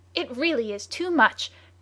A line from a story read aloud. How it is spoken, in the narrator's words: cried Michael Arden's adversary